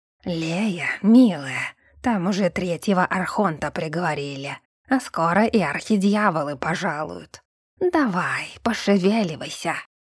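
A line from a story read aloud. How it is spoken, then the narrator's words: Wheezing, monster. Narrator (Russian): Просипел мне монстр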